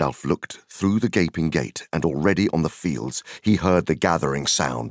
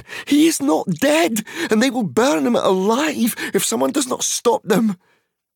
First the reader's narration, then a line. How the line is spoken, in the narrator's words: cried Pippin